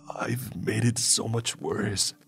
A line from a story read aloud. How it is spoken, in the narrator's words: he croaked